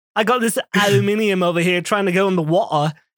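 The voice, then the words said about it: Put-on British rocker accent. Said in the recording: “good like British rocker impression ... Let's all do one”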